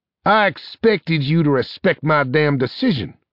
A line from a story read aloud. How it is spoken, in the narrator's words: snapped Arcturus